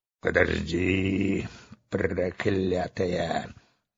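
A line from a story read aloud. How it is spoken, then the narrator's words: Muttered. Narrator (Russian): бормотал капитан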